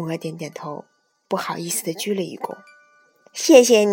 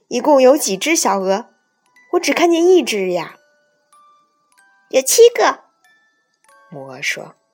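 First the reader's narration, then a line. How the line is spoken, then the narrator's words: Shouting. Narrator (Chinese): 韦伯喊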